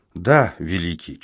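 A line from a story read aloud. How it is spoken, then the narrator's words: Barely audible child. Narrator (Russian): чуть слышно ответил ребенок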